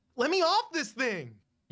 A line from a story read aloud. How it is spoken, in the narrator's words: You shout